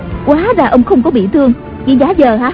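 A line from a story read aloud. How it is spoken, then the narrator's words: Surprised and angry. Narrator (Vietnamese): Tần Hồng Miên ngạc nhiên giận dữ nói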